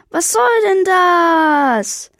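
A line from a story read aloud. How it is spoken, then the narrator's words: Screaming. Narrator (German): Diesmal schrie es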